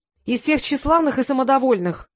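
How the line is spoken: Loud. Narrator (Russian): громко произнесла

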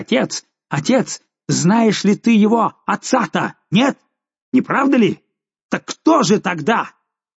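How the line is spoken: Furious impatient shout. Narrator (Russian): Жульен, видимо, теряя терпение, закричал в бешенстве

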